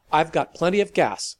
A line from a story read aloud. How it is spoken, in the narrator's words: almost barked into the phone